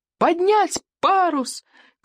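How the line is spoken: Shouted. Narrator (Russian): крикнул Икинг

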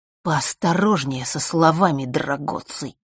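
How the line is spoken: Hiss. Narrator (Russian): прошипел Марк

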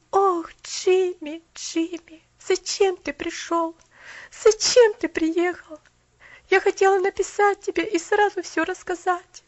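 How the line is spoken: Moaning. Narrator (Russian): простонала Поляна

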